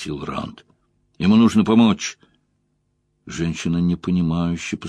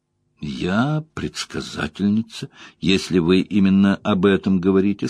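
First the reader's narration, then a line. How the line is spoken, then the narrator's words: Plain. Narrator (Russian): сказала женщина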